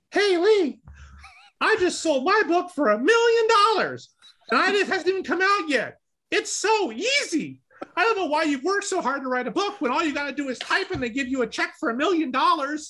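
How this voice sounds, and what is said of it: Imitates another person's voice. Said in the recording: “I'm going to do my imitation of Todd.”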